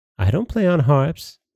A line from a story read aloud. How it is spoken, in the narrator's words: sighed Sweetheart